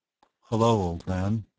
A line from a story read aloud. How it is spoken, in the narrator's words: I murmured in a deaf bedside voice